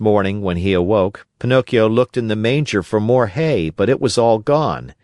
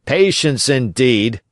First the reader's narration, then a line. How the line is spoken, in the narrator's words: shouted his master